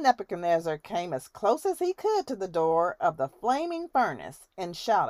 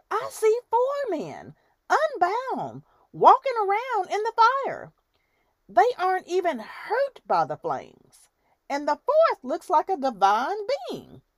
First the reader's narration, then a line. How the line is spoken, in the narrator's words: Nebuchadnezzar shouted